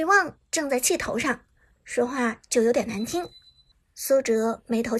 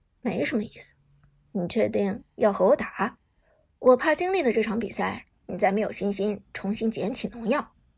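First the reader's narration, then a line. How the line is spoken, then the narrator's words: Calm faint smile. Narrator (Chinese): 苏哲淡淡一笑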